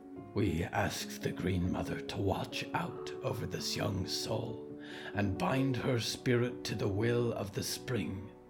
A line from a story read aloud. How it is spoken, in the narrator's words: whispered Grandmother Briar